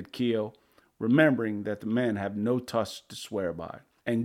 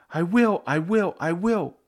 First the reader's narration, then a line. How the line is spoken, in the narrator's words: cried Gooey